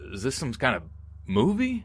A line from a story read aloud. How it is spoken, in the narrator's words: stammering, so scared I could hardly speak